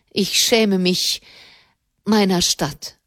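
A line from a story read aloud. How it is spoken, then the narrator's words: Trembling voice. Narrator (German): sagte mit bebender Stimme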